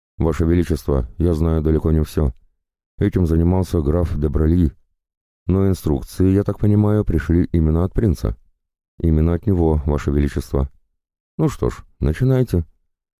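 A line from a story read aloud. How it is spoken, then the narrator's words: Defeated plaintive mutter. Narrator (Russian): герцог окончательно сдался, жалобно пробормотав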